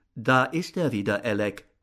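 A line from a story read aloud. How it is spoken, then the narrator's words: Plain, woman. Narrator (German): sagte die Frau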